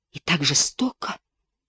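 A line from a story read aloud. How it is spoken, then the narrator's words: Moaning. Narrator (Russian): простонала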